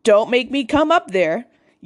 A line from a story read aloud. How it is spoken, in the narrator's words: yelled my mom from the bottom of the stairs